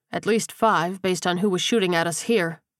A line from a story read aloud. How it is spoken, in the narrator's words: Kersey said